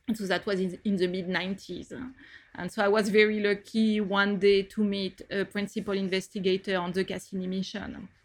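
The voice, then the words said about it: French accent. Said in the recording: “as you can get from my accent, I did all my studies in France”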